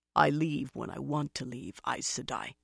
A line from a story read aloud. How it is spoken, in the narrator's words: he said harshly, but in a low voice